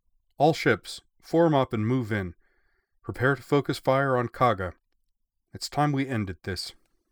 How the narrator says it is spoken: Kongo raised her voice and declared

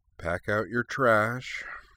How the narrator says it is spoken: Corwin mumbling

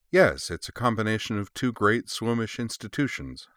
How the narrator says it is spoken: said Truda dryly

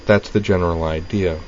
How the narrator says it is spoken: said Dorothy blandly

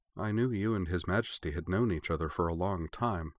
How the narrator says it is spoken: said Mina quietly after a few seconds' thought

